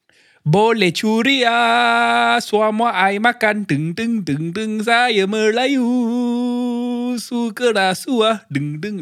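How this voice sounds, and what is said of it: Sings in a put-on Bengali accent. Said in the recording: “they don't like it when you sing like this ... I did that in a Bengali accent”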